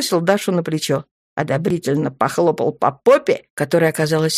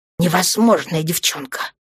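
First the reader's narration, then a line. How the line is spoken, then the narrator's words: Breathed out. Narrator (Russian): выдохнул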